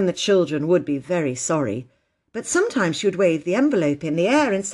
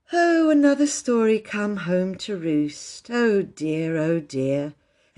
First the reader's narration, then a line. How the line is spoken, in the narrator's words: would sigh and say